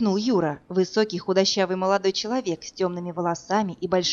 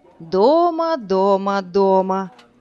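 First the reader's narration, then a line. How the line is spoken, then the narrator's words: Young woman drawling. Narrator (Russian): Протянула девушка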